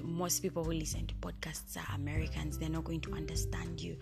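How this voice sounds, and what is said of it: Heavy African accent. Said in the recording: “accent is too heavy. It's a heavy African accent.”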